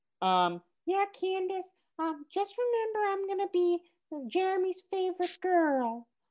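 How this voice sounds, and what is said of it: Cartoon girl character voice. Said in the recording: “That's not my Susie impression”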